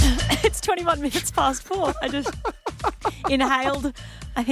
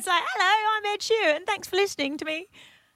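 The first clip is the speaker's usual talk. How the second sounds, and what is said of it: Put-on English singer's accent. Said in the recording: “That was more of an Adele accent.”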